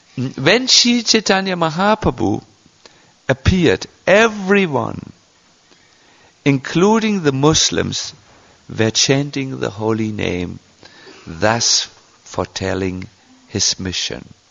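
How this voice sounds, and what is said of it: Thick German accent. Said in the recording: “my English is in the beginning stages ... my thick German accent”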